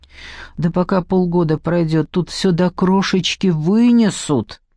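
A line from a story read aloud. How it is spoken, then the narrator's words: Groaning. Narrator (Russian): простонала племянница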